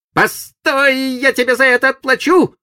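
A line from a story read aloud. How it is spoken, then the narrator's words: Shouted farewell. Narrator (Russian): крикнув на прощание Сиду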